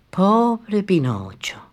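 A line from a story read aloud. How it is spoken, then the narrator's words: Fairy's sigh. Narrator (Spanish): suspiró el hada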